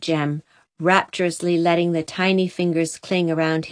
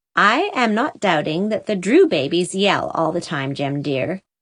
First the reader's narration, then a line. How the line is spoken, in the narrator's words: said Susan